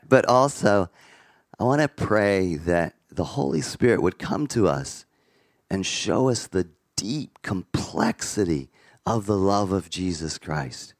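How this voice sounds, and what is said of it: Raspy, hoarse voice. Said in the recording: “My voice is a bit raspy this morning, you can hear.”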